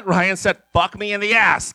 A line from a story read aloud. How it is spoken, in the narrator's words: King roared